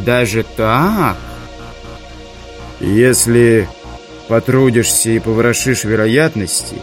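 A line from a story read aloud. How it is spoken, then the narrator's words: Muffled, hollow voice. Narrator (Russian): глухо промолвил Завулон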